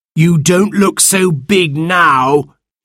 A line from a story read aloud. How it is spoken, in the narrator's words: cried